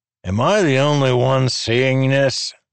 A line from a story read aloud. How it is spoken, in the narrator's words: Ruthar asked a little too loudly